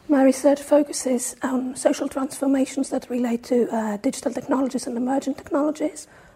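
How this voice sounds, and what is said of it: Hoarse, strained voice. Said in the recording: “I've lost my voice, as you can hear.”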